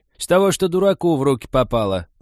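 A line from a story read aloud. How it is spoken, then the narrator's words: Loud, categorical old woman. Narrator (Russian): так громко и категорично объявила старуха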